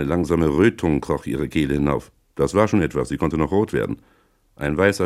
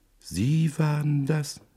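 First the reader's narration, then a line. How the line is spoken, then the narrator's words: Whisper. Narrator (German): wisperte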